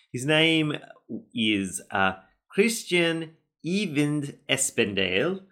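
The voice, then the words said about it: Put-on Norwegian accent. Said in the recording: “I'm going to put in a Norwegian accent as much as I can ... I don't know how good of an account that was”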